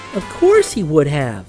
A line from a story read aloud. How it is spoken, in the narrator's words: said the cherub, nodding gaily